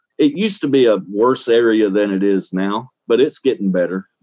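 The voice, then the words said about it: Southern Alabama accent. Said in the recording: “Does my accent sound like I'm from Florida? ... Maybe Alabama. ... Alabama, Southeast Alabama”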